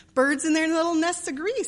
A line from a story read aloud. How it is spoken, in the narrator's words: sang Beth, the peacemaker, with such a funny face